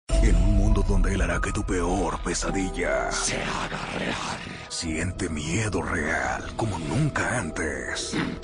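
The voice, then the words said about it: Monster voice. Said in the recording (Spanish): “voz de monstruo”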